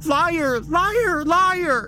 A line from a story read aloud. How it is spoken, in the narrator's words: She screams over and over again